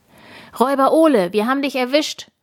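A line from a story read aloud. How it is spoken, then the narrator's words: Loud call. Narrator (German): ruft Tina laut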